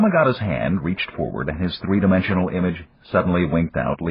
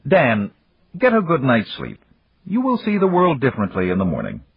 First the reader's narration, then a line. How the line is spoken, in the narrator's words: said firmly